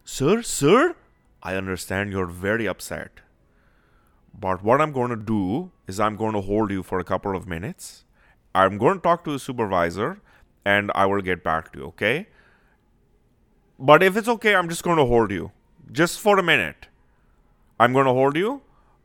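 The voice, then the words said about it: Put-on Indian accent. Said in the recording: “he's got an Indian accent, so I'm going to throw it out there”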